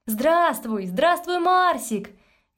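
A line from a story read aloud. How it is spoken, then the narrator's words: Cheerful group shouts. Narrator (Russian): весело кричали они ему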